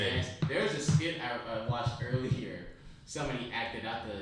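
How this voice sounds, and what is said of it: Usual voice. Nothing is said of it.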